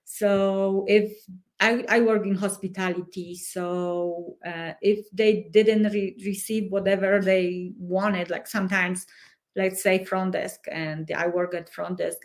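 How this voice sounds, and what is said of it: Speaks with an accent. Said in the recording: “I have an accent and I will always have my accent”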